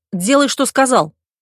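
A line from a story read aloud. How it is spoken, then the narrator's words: Barked. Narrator (Russian): рявкнул Миша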